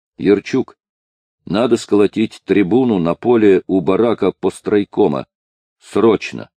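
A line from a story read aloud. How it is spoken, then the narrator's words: Plain. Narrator (Russian): сказал Мамчур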